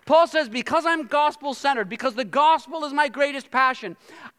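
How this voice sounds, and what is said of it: Shouting, loud preaching voice. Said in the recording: “I'm shouting”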